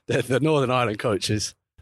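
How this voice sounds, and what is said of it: Northern Irish accent. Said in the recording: “I didn't mean to say that in a Northern Irish accent.”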